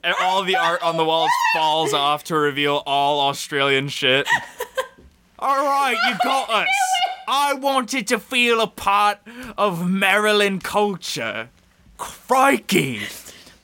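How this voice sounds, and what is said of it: Put-on, poor Australian accent. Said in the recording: “my Australian accent is bad”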